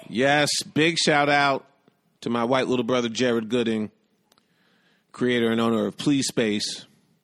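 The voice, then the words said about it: Hoarse voice. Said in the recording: “I don't know why I'm hoarse now.”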